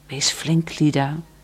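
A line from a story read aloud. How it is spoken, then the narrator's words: Whispered. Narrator (Dutch): fluisterde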